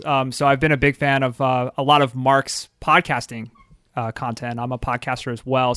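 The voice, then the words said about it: Philadelphia accent. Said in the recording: “I'll stick with my Philadelphian dialect over here.”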